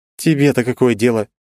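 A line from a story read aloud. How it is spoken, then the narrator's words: Angry hiss. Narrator (Russian): зло шикнула Ли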